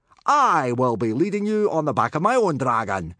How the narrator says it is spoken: shouted Gobber

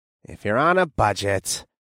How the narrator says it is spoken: Nathan said with a thoughtful sigh

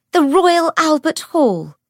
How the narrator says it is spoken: Cordelia cried

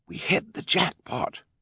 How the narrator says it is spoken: Klaus whispered

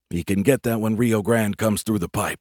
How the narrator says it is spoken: I said quietly to Reed

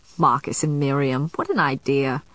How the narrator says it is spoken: he'd chuckled under his breath, saying

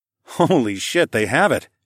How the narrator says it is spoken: I chuckled

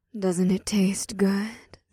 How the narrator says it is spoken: Ada purred into Leah's ear

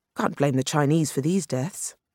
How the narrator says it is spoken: Regent said now

